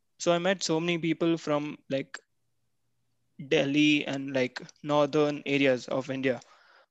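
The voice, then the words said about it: Indian English accent from Bangalore. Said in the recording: “me having this Bangalore accent ... you have a Bangalore accent”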